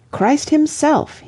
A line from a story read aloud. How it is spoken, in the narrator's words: he cried